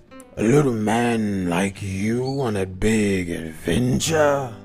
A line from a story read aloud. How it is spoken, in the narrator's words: rumbled the giant